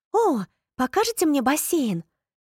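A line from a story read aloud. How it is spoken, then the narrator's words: Joyful question. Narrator (Russian): Радостно спросила Поппи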